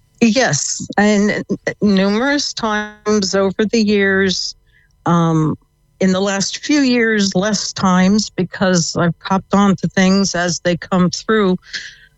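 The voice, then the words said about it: American accent. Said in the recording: “If you can tell from the accent, yep. I came from the States.”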